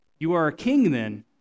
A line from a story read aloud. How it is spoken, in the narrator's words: said Pilate